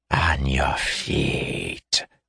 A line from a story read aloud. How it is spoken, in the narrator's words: hissed Theshaseth, spite and anger still in his tone